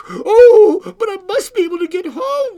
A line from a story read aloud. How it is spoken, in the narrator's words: cried the little girl